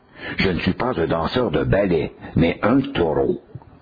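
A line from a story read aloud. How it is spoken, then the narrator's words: Cold reply. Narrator (French): l'autre lui répondit froidement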